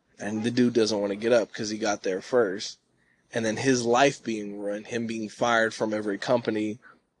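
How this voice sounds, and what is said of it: Strained, hoarse voice. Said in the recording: “I'm losing my voice.”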